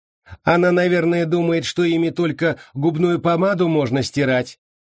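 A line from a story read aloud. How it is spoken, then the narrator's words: Mocking sudden shout. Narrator (Russian): насмешливо выкрикнула вдруг Рут Гроган, словно только что припомнила какой-то забавный случай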